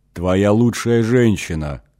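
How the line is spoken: Chuckle. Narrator (Russian): хохотнул его невидимый собеседник

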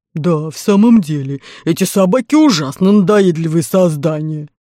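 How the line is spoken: Muffled low bass. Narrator (Russian): Ганнибал поддержал его глухим баском

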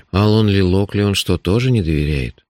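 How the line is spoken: Dejected question. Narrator (Russian): упавшим голосом спросил я

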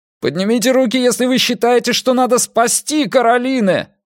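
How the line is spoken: Desperate shout. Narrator (Russian): Опять прокричал Эрик уже в отчаянии

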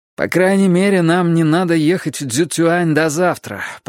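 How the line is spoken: Groaning. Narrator (Russian): простонал Винкат

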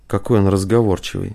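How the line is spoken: Grumbled. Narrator (Russian): проворчал Рузаев

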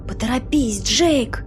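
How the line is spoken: Whisper. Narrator (Russian): прошептала Сюзанна

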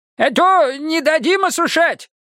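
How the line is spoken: Spirited shout, old man. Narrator (Russian): крикнул не потерявший задора дед Лучок

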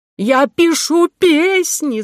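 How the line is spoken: Shouted. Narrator (Russian): закричал Миша

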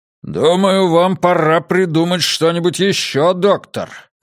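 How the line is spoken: Barking. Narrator (Russian): рявкнул МакГрейви

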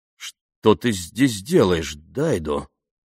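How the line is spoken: Choked, strained question. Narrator (Russian): сдавленным голосом спросила Памела

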